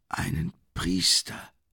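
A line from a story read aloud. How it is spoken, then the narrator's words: Hoarse whisper. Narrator (German): flüsterte er mit heiserer Stimme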